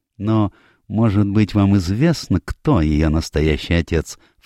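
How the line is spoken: Insinuating question. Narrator (Russian): вкрадчиво спросил Пуаро

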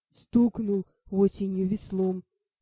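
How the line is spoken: Deep bass, big man. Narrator (Russian): пробасил детина

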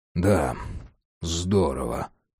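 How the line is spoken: Sighing. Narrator (Russian): вздохнув, подытожил Джек

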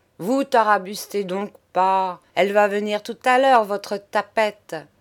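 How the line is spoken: Trembling, growling. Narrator (French): Eugénie frémissante et grondante

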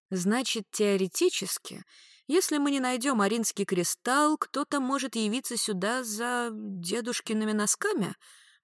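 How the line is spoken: Grim smirk. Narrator (Russian): мрачно усмехнулась дознавательница

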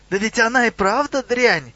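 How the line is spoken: Goblin's shriek. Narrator (Russian): взвизгнул гоблин

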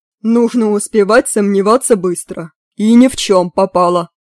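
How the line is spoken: Stern. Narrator (Russian): строго говорил Мерлин

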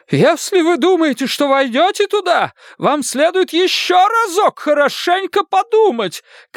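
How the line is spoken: Shouting mother. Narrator (Russian): кричала его мать

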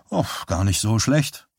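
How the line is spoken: Plain. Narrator (German): sagte Johnny

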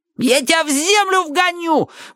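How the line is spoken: Yelling. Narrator (Russian): вопил тогда Джонни О

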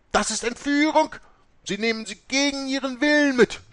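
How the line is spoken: Screamed. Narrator (German): schrie Mutter Oberste

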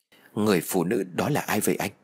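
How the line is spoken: Trembling, still frightened. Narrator (Vietnamese): Tư run rẩy còn chưa hết nỗi sợ

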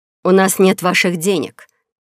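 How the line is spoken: Angry blurt. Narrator (Russian): сердито выпалила Лорине

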